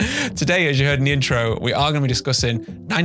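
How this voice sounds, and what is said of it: Usual voice. Nothing is said of it.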